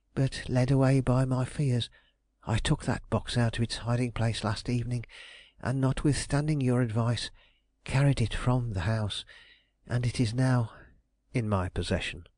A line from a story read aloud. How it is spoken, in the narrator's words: I quietly finished